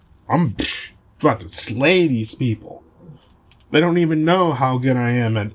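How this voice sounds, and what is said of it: Usual voice. Nothing is said of it.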